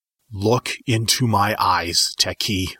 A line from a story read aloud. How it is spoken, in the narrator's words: I growled